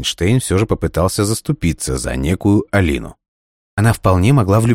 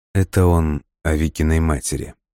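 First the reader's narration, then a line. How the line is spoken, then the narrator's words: Barely audible explanation. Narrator (Russian): еле слышно пояснил Альберту Дмитрий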